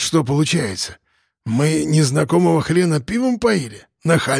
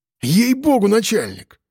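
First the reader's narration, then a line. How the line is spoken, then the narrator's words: Pleading. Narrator (Russian): взмолился пистон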